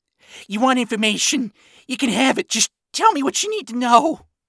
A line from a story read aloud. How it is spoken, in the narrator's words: Ronnie desperately offered